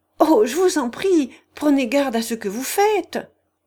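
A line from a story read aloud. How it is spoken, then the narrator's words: Terrified screaming. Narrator (French): criait Alice, en proie à la terreur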